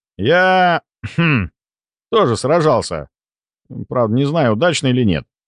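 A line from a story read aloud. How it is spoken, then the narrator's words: Thoughtful. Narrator (Russian): задумчиво произнес я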